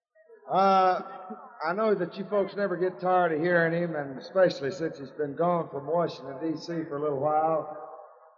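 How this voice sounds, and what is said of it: Hoarse voice. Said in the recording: “I'm getting hoarse as I can be. Little hoarse.”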